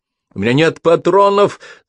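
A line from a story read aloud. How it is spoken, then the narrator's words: Yell. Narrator (Russian): заорала Минди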